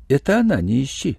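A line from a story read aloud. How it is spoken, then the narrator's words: Sad. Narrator (Russian): сказала Ия печально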